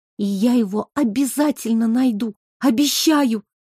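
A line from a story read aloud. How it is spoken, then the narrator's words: Breathy, smiling through tears. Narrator (Russian): выдохнула Оля, улыбаясь сквозь слезы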